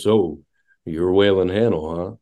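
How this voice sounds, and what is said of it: Deep-voiced imitation of another person. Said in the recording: “with that deep voice he's got. With that deep voice.”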